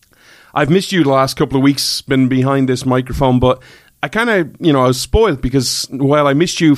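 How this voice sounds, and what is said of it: Irish accent. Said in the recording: “Irishman ... where you come for the accent”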